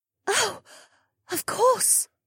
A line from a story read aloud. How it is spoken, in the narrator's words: Amaya gasped